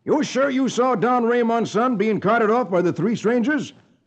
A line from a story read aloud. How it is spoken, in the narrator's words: exclaims